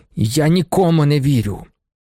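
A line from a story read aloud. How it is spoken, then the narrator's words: Angry old man. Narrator (Ukrainian): сердито відказав старий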